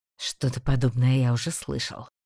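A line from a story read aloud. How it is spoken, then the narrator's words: Mutter. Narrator (Russian): пробормотал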